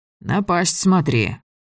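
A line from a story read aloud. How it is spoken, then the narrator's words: Bored voice. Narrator (Russian): сказал Григорий скучным голосом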